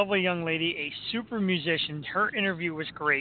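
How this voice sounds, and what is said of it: Usual voice. Nothing is said of it.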